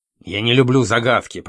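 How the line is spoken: Grumbled. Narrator (Russian): проворчал

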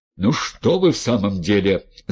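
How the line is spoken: Yelling. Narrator (Russian): заорал Демид

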